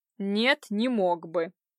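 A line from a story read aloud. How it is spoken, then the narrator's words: Defiant, through gritted teeth. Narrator (Russian): процедил он с вызовом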